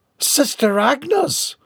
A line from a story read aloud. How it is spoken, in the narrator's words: yelped